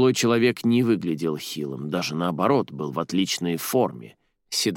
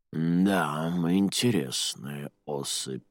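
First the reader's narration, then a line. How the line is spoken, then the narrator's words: Barely audible. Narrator (Russian): еле слышно произнес он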